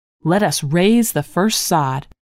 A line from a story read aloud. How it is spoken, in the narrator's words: cried